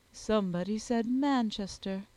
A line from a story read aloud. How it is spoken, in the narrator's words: observed Miss Jollyford dryly